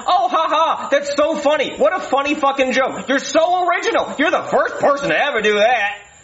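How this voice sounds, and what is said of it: Angry yelling. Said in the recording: “I don't know why I'm yelling at you”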